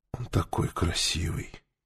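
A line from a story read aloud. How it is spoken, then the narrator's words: Breathless exhale. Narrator (Russian): выдохнула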